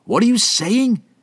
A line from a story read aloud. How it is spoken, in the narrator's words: Franklin shouted